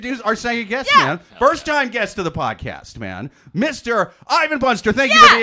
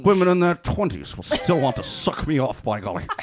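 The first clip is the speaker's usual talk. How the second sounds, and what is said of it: Put-on Scottish accent. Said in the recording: “Was a great Scottish accent”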